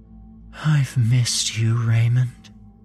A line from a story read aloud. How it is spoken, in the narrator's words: she said in an ethereally beautiful voice